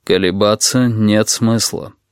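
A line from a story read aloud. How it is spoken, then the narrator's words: Calmly added. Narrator (Russian): спокойно добавил он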